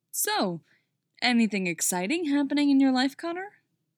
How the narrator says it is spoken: Clark asks, too brightly

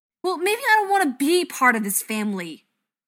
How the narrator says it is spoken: Kevin yells at his dad

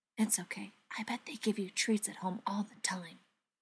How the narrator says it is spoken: He whispered

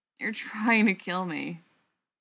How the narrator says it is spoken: Spencer groans

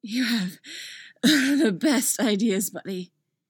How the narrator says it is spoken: gasps

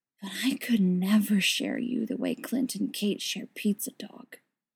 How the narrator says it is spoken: Steve whispers

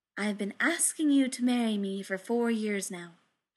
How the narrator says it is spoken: she said

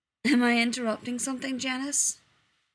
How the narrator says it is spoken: Dean asks, yawning

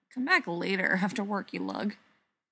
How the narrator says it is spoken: muttering

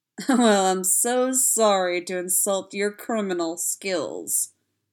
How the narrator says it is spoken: Spencer drawled sarcastically

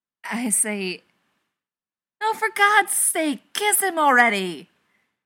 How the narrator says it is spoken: Daniil's shouted out sentiment was loudly echoed by the rest of their friends

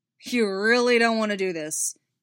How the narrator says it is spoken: said, half snarling the words

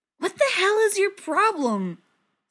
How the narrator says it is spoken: Steve yells, struggling

